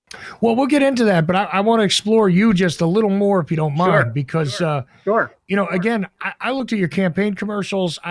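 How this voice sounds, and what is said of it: New Jersey accent. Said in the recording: “I know my accent doesn't exactly sound like Georgia accents. ... I did grow up in New Jersey, so you probably recognize that noise coming out of me.”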